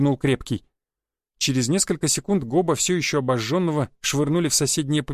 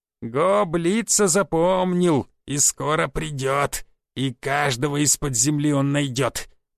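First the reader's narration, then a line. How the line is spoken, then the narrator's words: Creaky voice. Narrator (Russian): проскрипел Гоб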